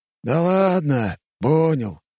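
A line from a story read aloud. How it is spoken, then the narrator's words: Plain. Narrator (Russian): сказал Пушкин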